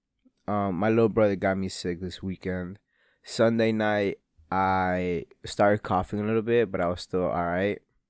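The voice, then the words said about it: Sick, scratchy voice. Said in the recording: “I am sick as fuck. You can probably tell by my voice that I'm sick... my throat that's been scratchy and like itchy”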